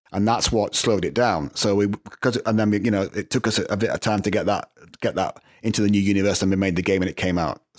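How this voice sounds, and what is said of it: Northern English accent. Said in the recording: “you sound like you're still from Northern England”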